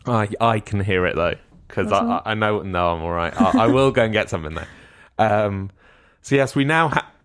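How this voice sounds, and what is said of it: Strained, rough-sounding voice. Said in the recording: “I really need to go and find a drink because I can hear my voice is terrible ... Okay, now it sounds bad.”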